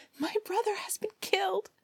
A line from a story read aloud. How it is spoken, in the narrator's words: she cried